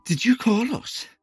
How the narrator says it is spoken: panting

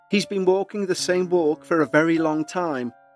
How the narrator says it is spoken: she said

